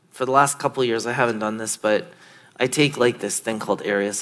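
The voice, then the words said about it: Slightly raspy voice. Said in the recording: “I sound a little raspy”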